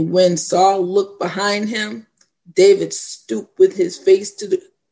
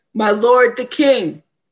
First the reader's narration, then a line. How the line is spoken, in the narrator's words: called out to Saul, saying